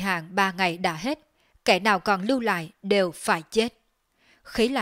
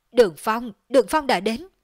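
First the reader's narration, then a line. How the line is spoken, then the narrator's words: Frightened cry. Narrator (Vietnamese): không khỏi hoảng sợ, kêu lên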